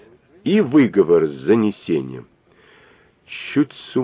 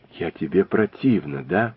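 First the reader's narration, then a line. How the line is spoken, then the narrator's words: Whispering. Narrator (Russian): прошептала Нелли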